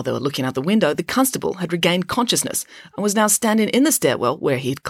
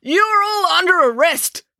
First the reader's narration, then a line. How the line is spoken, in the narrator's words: bellowed Constable Pike